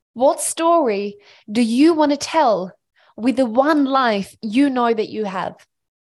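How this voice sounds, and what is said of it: Passionate, intense delivery. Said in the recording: “you can hear the passion in my voice”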